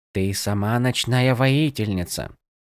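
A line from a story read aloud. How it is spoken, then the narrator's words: Soft voice. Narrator (Russian): мягко продолжил Иллидан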